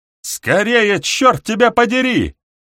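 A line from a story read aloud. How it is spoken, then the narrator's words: Yelling through door. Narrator (Russian): вопит через дверь компаньон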